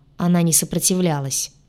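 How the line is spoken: Grim. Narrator (Russian): мрачно произнес демон

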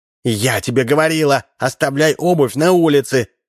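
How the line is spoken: Wife's shout. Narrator (Russian): крикнула жена

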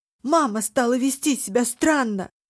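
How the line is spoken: Shouting. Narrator (Russian): закричал Хван Хи

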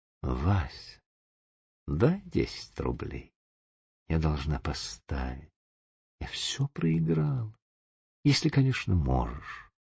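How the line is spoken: Whisper. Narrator (Russian): она прошептала ему

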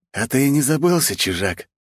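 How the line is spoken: Angry hiss through teeth. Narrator (Russian): злобно прошипел сквозь зубы

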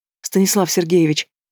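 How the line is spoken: Trembling babbling. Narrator (Russian): Дрожащим голосом лепечет она

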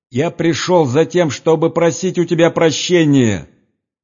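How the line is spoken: Loud monotone shout. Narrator (Russian): прокричал громким голосом, без интонации, как заученный урок

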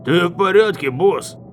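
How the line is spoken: Shouted, guard. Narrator (Russian): крикнул один из охранников

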